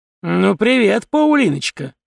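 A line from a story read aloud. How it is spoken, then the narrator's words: Snide. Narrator (Russian): ехидно произнес он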